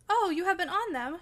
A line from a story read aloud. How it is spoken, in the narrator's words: she cried gleefully